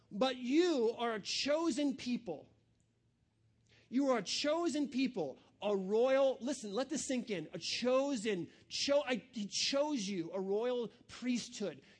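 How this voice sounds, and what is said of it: Slow, deliberate reading. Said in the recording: “I'm going to read it slowly.”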